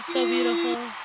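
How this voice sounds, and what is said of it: Tearful, strained ghostly old-lady voice. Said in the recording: “Making me lose my voice ... you sound like a 19th century ghost. ... I was crying ... Like an old lady.”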